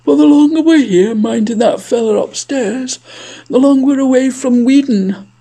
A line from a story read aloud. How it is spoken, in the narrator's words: yawned